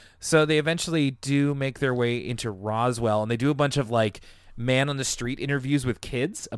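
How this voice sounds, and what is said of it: Usual voice. Nothing is said of it.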